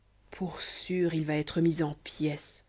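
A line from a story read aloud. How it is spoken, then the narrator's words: Murmured. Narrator (French): murmura Bruno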